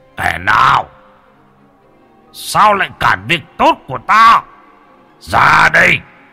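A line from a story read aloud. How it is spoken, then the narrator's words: Startled roar. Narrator (Vietnamese): Tướng quân kia bị bất ngờ, gầm lên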